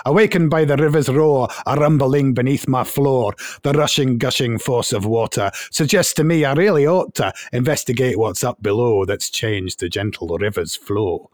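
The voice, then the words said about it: Put-on Scottish accent. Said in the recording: “I've got to do it in the Scottish accent.”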